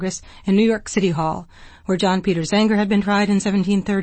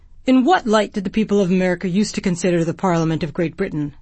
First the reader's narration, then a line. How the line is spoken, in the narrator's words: the ministers asked